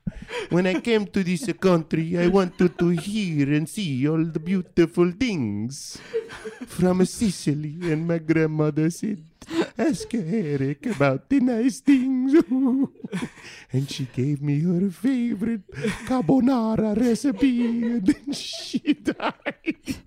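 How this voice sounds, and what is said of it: Mock Italian accent, Count Chocula-like. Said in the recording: “My Italian accent sounds like Count Chocula.”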